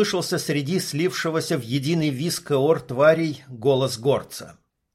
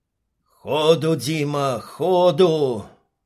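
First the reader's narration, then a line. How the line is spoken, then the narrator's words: Growled urgently. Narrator (Russian): зарычал Горец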